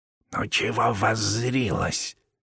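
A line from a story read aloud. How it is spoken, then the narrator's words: Angry whisper. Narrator (Russian): сердито прошептал Савелий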